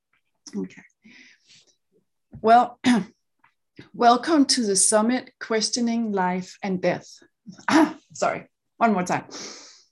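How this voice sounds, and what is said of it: Danish accent. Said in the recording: “I do have an accent, though. Danish accent, yeah. ... Danish. Yeah, so I grew up in Denmark.”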